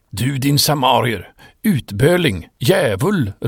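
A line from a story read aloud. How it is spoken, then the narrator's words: Angry shouting leaders. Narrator (Swedish): ropade de judiska ledarna ilsket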